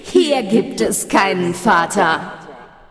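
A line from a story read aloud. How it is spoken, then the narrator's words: Laughing voice from darkness. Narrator (German): schallte es lachend aus der Dunkelheit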